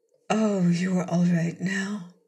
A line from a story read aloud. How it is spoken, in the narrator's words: she murmured anxiously